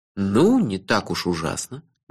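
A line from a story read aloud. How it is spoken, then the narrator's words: Gentle objection. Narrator (Russian): мягко возразил я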